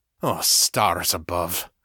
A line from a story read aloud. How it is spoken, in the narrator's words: Artax muttered